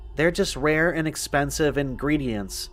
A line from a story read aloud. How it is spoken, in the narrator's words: she said